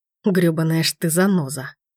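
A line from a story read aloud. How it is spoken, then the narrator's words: Growled through teeth. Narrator (Russian): Рычит сквозь зубы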